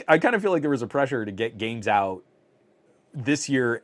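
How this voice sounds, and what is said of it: Strained, failing voice. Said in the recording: “My voice is actively failing”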